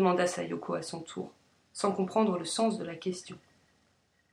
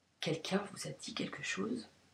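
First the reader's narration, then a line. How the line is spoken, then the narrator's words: Flat, expressionless murmur. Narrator (French): murmura-t-elle, toujours sans expression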